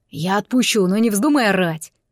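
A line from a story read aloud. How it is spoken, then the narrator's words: Hissed. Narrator (Russian): прошипел Гил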